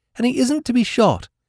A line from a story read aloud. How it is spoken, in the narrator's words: said Peter sleepily